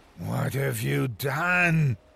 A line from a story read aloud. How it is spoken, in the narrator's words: He snarled